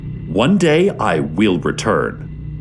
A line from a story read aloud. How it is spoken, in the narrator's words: says